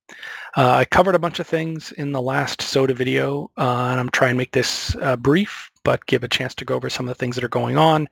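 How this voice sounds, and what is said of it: Weak voice from a cold. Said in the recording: “my voice is a little weak from a cold I've had this week”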